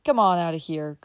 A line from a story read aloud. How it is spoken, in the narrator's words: growled